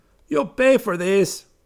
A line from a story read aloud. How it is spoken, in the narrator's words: Rangoon cried